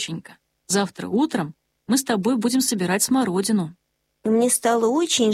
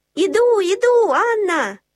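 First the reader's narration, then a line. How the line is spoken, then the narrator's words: Shouting. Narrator (Russian): закричала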